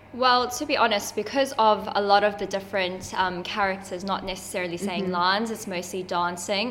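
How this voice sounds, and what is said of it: South African accent. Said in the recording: “obviously I'm South African and I have an accent”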